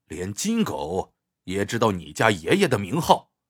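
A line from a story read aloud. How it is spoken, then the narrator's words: Cold laugh. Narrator (Chinese): 他冷冷一笑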